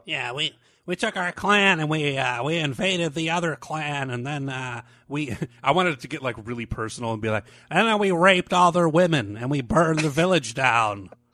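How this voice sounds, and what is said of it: Nerdy childlike voice. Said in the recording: “I like that nerd voice. I'm not sure if you're like a little person or a 12 year old”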